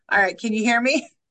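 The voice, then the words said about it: Loud, projecting teacher voice. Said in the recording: “Just need to talk a little louder ... I'll use my teacher voice.”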